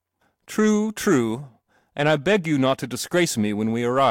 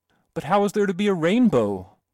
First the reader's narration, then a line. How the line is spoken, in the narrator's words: cried the boy